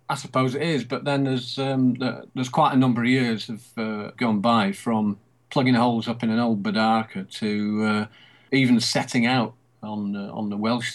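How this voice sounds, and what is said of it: Lancashire English accent. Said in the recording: “I was thinking that was a Lancashire accent”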